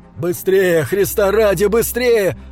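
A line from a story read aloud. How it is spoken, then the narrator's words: Exhausted loud yell. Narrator (Russian): Он завопил так громко, насколько позволяло утомление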